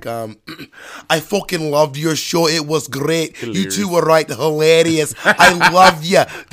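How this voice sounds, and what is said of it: Put-on Scottish accent. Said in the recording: “the Scottish is more like ... who has a better British accent”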